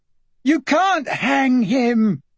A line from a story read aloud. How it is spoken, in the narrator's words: Kate to talk to Stephen she had to yell across the room